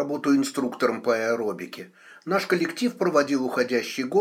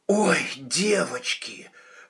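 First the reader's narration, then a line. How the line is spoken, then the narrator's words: Breathless. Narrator (Russian): выдохнула Илона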